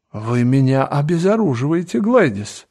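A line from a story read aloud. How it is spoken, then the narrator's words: Lively exclamation. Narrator (Russian): воскликнул лорд Генри, заражаясь ее настроением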